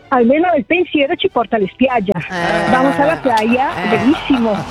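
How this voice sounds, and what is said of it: South American accent mixed with Bergamasque. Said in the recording (Italian): “tu hai un accento spagnolo ... Si sentiva. ... un mix, no? Tra il Sud America e il bergamasco”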